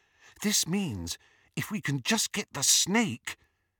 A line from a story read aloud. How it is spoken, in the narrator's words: whispered Hermione